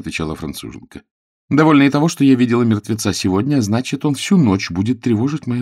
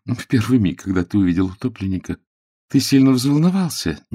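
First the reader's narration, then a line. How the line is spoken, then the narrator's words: Innocent little voice. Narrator (Russian): невинным голоском продолжала француженка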